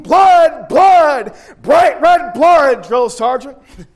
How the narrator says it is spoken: hundreds of voices, we would yell out in unison

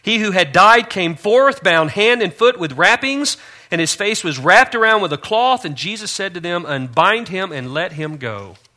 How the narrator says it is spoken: shout of command

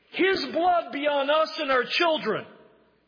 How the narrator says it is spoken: the crowd roars back

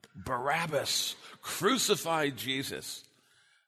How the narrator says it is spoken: Many of these people who cried in the crowd

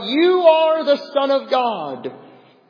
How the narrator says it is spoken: the unclean spirits … shout

